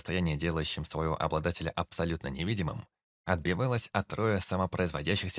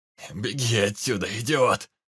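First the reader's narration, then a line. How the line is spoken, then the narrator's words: Hoarse shout. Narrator (Russian): хрипло крикнул незнакомец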